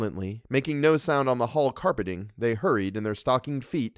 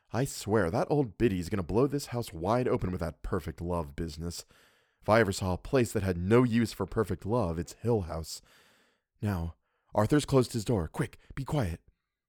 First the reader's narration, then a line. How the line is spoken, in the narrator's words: whispered over her shoulder